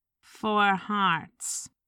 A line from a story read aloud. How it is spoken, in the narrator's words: retorted dryly